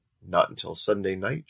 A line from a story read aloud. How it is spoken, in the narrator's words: Jack answered